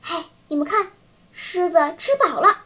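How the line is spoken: Sudden hushed voice. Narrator (Chinese): 小依依突然压低声音说

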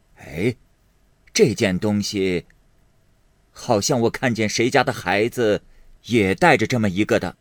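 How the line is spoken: Laughing. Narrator (Chinese): 贾母 笑道

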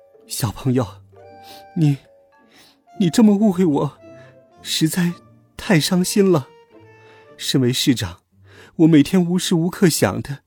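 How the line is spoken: Tearful, sobbing. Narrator (Chinese): 市长哭了整整十分钟，终于勉强忍住了，一边哭泣一边说

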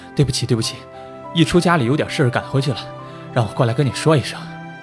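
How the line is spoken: Breathless, panting. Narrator (Chinese): 他气喘吁吁地说

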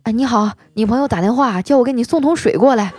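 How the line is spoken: Out of breath. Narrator (Chinese): 他气喘吁吁的说

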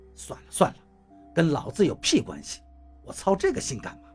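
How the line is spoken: Muttered grumbling. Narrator (Chinese): 嘴里却在嘟嘟囔囔，看口型应该是在偷偷的骂人

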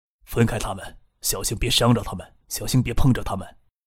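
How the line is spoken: Low voice. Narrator (Chinese): 低声说

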